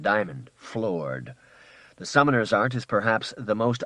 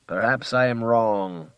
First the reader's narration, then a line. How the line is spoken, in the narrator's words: said Hemlock in his dry, flat voice